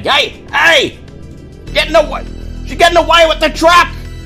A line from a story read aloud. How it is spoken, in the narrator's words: Over the din of the engine, someone shouting